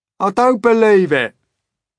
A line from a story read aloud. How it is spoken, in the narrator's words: shouted the centipede, raising his voice